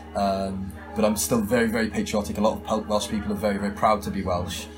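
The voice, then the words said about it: Welsh speaker with fairly English accent. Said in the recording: “I'm obviously from a country called Wales ... which is why my accent is pretty English”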